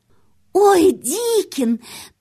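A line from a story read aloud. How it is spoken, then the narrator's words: Girl's quick exclamation. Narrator (Russian): тут же воскликнула девочка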